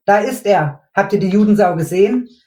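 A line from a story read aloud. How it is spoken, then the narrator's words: Young man, sudden excited shout. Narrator (German): rief plötzlich ein junger Kerl aufgeregt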